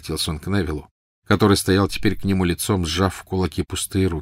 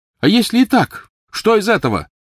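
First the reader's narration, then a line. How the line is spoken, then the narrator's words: Loud answer. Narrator (Russian): громко ответил Невилл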